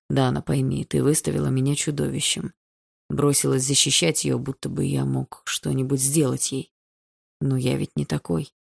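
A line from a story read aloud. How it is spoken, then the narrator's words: Quiet speech. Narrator (Russian): Андрей тихо говорил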